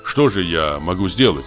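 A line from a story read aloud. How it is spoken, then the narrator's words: Plain. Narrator (Russian): спросил я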